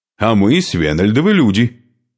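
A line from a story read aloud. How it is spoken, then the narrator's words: Angry objection. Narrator (Russian): сердито возразил Шуйка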